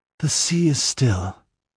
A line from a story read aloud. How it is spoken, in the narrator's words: sighed Olivia